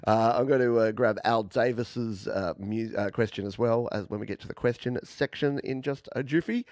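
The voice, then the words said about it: Australian accent. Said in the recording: “my weird Australian accent”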